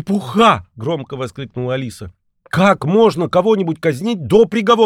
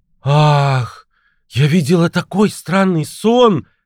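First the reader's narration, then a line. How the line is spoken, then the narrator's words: Exclamation. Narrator (Russian): воскликнула Алиса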